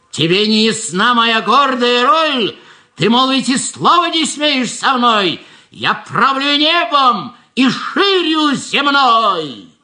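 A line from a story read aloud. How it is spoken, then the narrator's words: Shouting. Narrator (Russian): кричал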